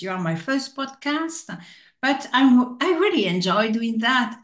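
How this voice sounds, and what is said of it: Non-native English accent. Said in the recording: “I am speaking in English ... I don't care about my accent”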